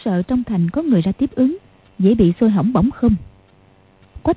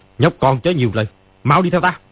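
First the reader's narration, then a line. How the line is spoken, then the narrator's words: Angry speech. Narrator (Vietnamese): Ni Ma Tinh tức giận nói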